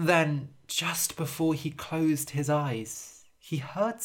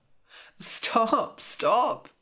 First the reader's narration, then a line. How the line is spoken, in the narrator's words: cried Jasper